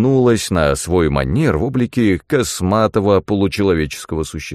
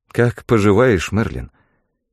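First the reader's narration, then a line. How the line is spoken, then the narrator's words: Sighing. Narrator (Russian): Я вздохнул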